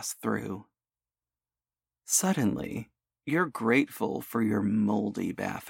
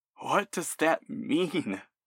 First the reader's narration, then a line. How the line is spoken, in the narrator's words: You gasp